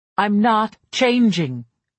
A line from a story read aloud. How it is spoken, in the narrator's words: I shouted it, an unexpected rage rising inside of me